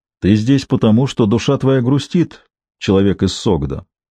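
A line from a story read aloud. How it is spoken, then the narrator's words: Rich deep bass greeting. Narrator (Russian): поприветствовал меня вкусным басом эта гора мяса и волос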